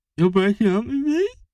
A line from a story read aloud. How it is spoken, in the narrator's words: spluttered